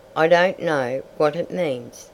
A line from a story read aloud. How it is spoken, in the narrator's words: said Peter